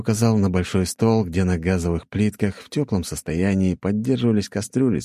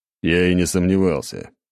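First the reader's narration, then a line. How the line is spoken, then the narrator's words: Snorted. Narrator (Russian): фыркнул в ответ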